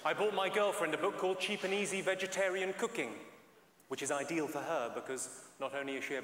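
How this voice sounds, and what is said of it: English accent. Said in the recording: “my accent... I'm from England”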